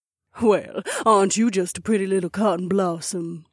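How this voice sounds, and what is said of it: Southern twang character voice. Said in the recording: “added a little southern twang to her own accent”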